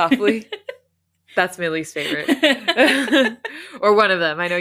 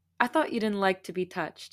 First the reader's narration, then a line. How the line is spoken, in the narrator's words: he said with a soft laugh